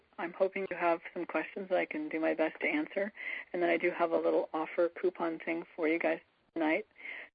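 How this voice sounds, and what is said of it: Affected, unwell-sounding voice. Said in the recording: “apologize for my voice. not how I wanted to wake up this morning”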